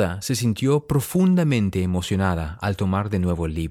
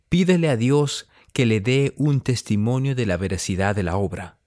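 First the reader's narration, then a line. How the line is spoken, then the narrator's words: Plain. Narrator (Spanish): dijo Samuel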